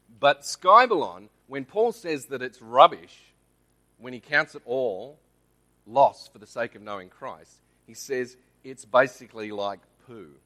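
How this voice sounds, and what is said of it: Australian accent. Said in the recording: “Go the Australian accent. Yes, I'm Australian, not American.”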